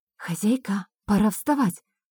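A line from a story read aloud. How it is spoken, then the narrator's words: Whisper. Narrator (Russian): прошептала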